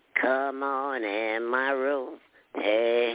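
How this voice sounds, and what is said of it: Singing in a high voice. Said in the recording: “a little quick song from you in the high voice that you always do”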